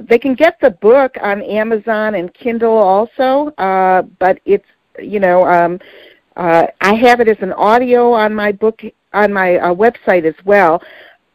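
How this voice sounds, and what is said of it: Detroit accent. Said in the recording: “my Detroit accent”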